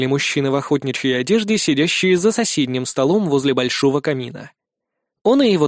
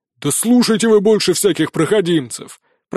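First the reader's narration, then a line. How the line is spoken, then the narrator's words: Deep bass voice. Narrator (Russian): пробасил здоровяк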